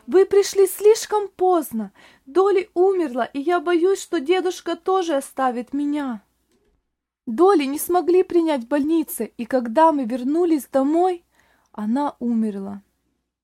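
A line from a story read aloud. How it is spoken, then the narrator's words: Loud sobbing shout. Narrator (Russian): мальчик громко рыдая, и закричал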